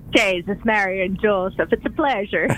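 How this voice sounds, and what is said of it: Put-on Irish brogue. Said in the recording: “she's got a bit of the brogue.”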